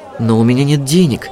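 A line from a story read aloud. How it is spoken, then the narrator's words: Bewildered mutter. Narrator (Russian): растерянно пробормотала Жасмин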